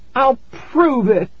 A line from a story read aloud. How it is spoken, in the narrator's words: I cried